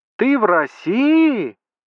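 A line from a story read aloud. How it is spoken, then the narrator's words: Shouting. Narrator (Russian): крикнула Маша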